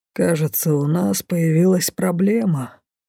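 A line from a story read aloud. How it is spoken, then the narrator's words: Gloomy, low voice. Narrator (Russian): до крайности хмурый папа вполголоса сообщил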